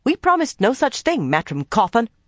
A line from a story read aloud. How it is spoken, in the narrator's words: Nynaeve snapped